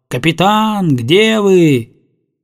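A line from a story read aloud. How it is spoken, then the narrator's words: Shouting. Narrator (Russian): Летика кричал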